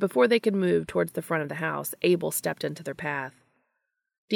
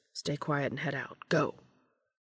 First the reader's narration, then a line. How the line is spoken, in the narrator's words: Dean murmured to the others